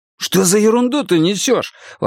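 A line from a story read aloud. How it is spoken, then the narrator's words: Exclamation. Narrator (Russian): воскликнул Рошан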